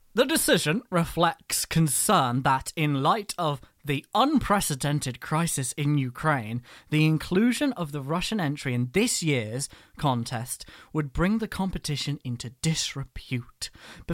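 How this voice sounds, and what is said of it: Mock official institutional voice. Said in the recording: “put on my best EBU voice.”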